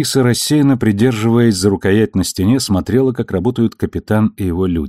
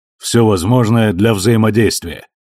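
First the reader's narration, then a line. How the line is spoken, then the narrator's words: Serious. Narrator (Russian): серьезным тоном закончил он фразу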